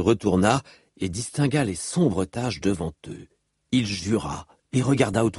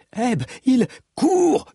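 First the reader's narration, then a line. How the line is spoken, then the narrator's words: Yelled. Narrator (French): hurla-t-il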